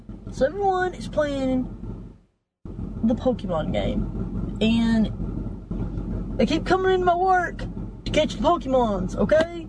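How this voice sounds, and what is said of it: Speaks with a noticeable accent. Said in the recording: “I love her accent.”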